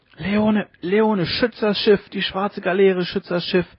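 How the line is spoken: Dying man's feverish shriek. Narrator (German): kreischte der Sterbende im Fiebertraum

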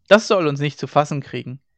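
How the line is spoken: Laughing. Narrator (German): Hauke lachte

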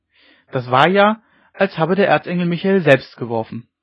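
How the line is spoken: Call from the crowd. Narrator (German): rief es aus dem Haufen

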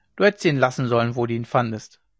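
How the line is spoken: Dry. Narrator (German): sagte Ole trocken

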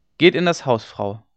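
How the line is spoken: Plain. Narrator (German): sagte John

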